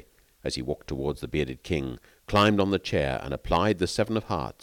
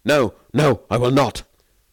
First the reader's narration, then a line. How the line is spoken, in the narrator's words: Varin recoiled in terror and cried